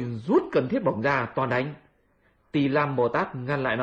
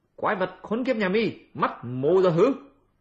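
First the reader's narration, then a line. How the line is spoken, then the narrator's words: Aggressive shout. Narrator (Vietnamese): Hành giả sấn lên quát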